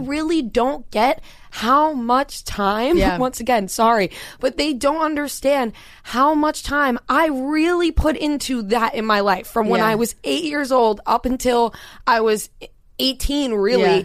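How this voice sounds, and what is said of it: Strong Long Island accent. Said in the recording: “I had to get rid of my Long Island accent. That's most definitely back. ... It's stronger than ever.”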